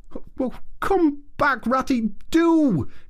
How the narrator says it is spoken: cried the Mole

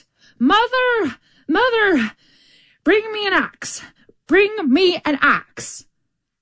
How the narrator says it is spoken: So he called out

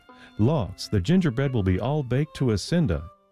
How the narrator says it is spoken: she dropped her broom in a hurry, and exclaiming

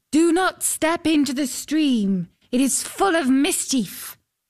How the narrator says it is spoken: a voice called out

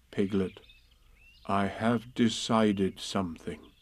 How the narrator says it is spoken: Pooh ... said in a very solemn voice

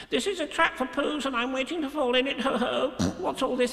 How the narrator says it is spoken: he said very quickly and squeakily

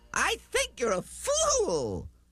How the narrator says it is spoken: laughed the sour kangaroo

